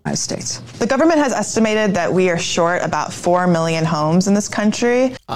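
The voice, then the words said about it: Woman speaking with vocal fry. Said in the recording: “this vocal fry talk. Yes, when we get a woman on and she does this vocal fry talk”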